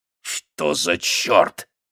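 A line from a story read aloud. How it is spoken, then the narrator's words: Growling. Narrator (Russian): прорычал он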